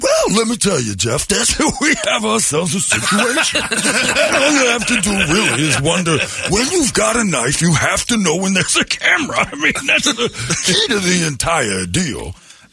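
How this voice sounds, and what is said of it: Impression of OJ Simpson. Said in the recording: “I do an impression of OJ on the show all the time”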